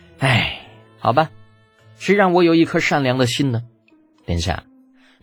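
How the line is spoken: Long sigh. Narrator (Chinese): 李浩长叹一声

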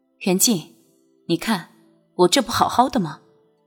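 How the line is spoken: Smiling sigh. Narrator (Chinese): 君玉微笑着叹息一声

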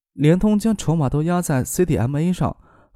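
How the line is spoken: Slight sigh, questioning. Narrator (Chinese): 婉晴微微一叹，问道

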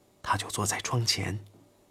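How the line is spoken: Whispering. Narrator (Chinese): 一位副官小声说

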